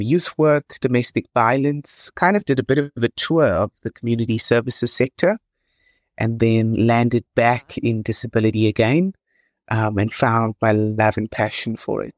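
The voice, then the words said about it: South African accent. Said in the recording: “I love your accent. ... My husband is also a lawyer from South Africa.”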